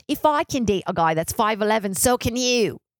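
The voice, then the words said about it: Weak imitated Australian accent. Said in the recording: “I really got to get better at my Australian accent.”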